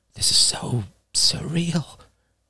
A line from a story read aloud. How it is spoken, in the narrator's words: she whispered